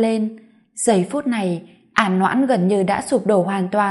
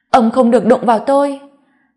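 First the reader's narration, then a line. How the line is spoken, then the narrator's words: Agitated scream. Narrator (Vietnamese): À Noãn cực kỳ nhạy cảm mà hét lên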